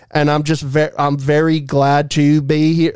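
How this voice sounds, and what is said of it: Imitated put-on Southern accent. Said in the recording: “faking a Southern accent ... it like goes in and out”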